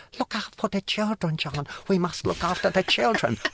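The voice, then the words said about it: Put-on Japanese accent. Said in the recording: “Sorry for the Japanese accent.”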